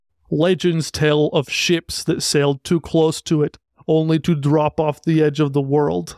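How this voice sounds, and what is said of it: Attempted Scottish-accented impression. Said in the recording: “do my best Gerard Butler impersonation ... I sound like Groot ... I sound like Despicable Me ... I think I'll abandon the Scottish accent”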